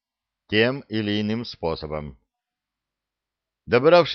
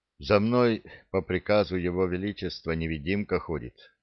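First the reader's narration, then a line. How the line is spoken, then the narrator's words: Heavy sigh. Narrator (Russian): тяжело вздохнул Лек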